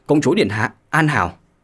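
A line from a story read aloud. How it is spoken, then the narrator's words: Guard speaking trembling. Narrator (Vietnamese): Thần sắc của thương vệ binh đại biến, nằm bò xuống đất run rẩy mà nói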